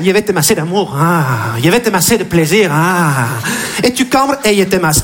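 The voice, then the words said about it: Put-on Argentine Spanish accent. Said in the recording (French): “il est argentin ... Un petit accent”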